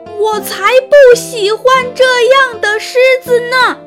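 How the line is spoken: Shouting again. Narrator (Chinese): 我又喊了一遍

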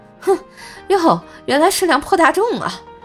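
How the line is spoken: Young man, contemptuous. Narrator (Chinese): 宝马司机是个小年轻儿啊，轻蔑的一笑，然后就说

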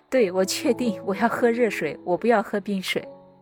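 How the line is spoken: Laughing. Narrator (Chinese): 我就在笑着说

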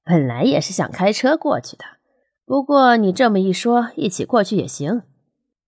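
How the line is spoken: Relaxed smiling. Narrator (Chinese): 许少辉已经很自然地笑着说

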